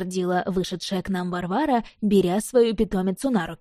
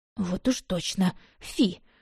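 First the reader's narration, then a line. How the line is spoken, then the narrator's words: Grumbling. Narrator (Russian): буркнула я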